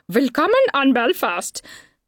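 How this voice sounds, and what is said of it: Ridiculous mock German accent. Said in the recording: “in a ridiculous accent”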